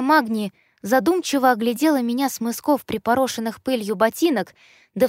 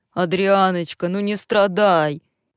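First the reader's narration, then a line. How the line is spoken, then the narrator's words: Deep booming voice. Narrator (Russian): басил Глен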